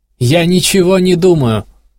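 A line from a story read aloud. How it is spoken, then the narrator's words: Quick shout. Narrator (Russian): успел крикнуть Кванг девушке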